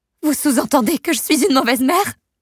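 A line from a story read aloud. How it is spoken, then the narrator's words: Shout. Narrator (French): crie Amber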